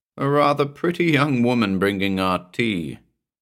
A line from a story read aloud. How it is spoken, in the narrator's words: answered, laughing